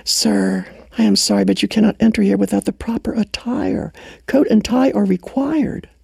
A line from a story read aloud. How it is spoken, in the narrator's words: the maitre d' greeted him warmly and then gently pulled him aside and whispered